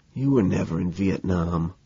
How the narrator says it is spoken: I whisper in his ear

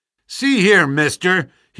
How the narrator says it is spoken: he cried with a gleam of suspicion in his eyes

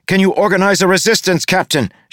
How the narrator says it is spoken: She shouted over the increasing din

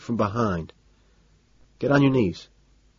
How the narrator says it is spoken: say quietly

